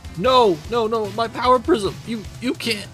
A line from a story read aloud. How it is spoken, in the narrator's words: Spectrum screams